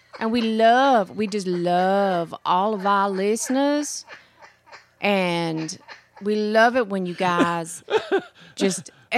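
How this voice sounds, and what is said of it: Put-on Southern accent. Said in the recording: “that's how you do the Southern accent. ... goes down south just a little bit.”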